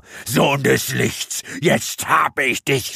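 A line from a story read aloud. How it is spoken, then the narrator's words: Scream. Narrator (German): schrie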